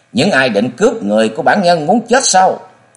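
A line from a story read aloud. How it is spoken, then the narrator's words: Old man, furious snarl. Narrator (Vietnamese): tiếng nạt đầy giận dữ của lão Du Hiệp vang lên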